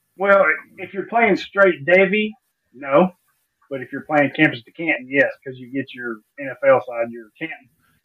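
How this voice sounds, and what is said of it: Southern American accent. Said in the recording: “that Southern accent of yours”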